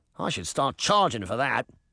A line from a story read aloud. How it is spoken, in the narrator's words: Tim muttered